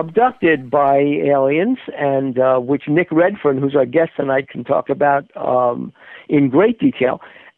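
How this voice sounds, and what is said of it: Muffled voice over a phone line. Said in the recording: “you sound a little muffled tonight ... I sound a little muffled ... I'm on a landline.”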